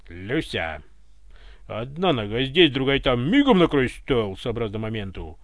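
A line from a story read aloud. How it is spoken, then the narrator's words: Offended bear-like bark. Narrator (Russian): Обиженным медведем рявкнул полковник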